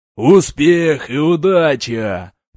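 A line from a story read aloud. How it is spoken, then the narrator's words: Roaring crowd. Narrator (Russian): проревел зал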